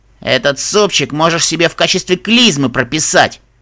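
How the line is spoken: Snapping retort. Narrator (Russian): огрызнулась пациентка

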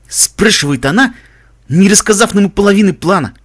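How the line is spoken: Snorting, smiling reply. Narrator (Russian): фыркнул Каламити, улыбаясь, ответил

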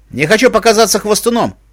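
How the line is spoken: Snorting. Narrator (Russian): хмыкнул Дигори

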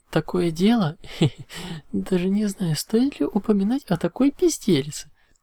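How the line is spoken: Laughing. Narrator (Russian): Рассмеялась Мах

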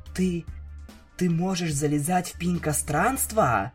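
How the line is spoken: Shocked whisper. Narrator (Russian): прошептала она, выпучив глаза от потрясения

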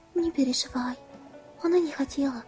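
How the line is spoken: Hesitant, finally spoken. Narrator (Russian): наконец выдал он

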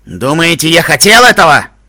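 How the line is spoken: Snapping. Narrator (Russian): огрызнулся Стил Хувс

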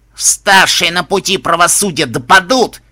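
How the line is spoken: Distorted wheeze, bleeding. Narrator (Russian): Искаженным голосом прохрипел истекающий кровью синтет

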